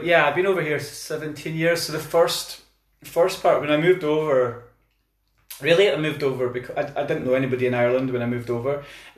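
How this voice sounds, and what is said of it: Scottish accent. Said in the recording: “So that's a Scottish accent.”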